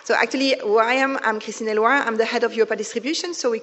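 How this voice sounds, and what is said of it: Non-British accented English. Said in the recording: “as you can see or understand from my accent, I'm not Michael Gubbins”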